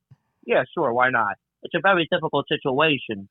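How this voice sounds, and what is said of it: Overdone Tony Soprano impersonation. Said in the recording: “I do a really good Tony Soprano impersonation ... That's really not a good impersonation. You're overdoing it.”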